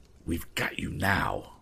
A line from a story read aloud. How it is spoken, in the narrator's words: fairly hissed in his ear